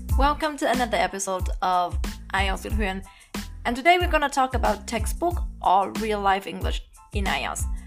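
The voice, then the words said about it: Non-native English accent. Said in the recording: “As you can see from my accent, I am not a native speaker.”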